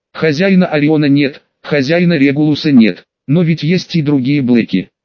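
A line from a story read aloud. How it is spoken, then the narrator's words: Plain. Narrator (Russian): спросил я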